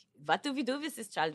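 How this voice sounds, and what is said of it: Put-on German accent. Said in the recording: “They're talking the German accent.”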